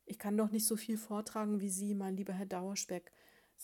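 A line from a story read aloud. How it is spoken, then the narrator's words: Plain. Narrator (German): sagte Mariechen Knusperkorn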